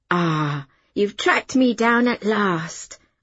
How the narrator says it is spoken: said in an admiring voice

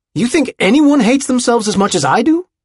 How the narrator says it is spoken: JB had shouted at him

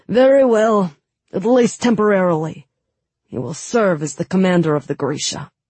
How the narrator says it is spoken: the king grunted and said

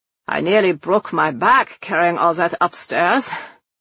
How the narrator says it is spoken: Gebhardt grumbled from the doorway

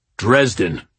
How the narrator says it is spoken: Morgan growled

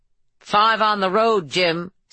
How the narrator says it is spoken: said one of the armed men, his voice muffled by his mask

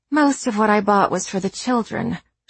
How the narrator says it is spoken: she says, sighing

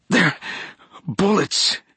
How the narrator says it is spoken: she gasped, the air momentarily crushed from her lungs

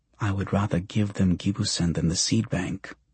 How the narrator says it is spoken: Kanya mutters

